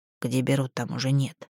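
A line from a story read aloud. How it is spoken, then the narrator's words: Sullen grumble. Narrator (Russian): буркнула хмуро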